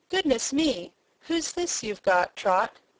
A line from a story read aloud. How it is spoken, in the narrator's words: She seemed motherly and good, she exclaimed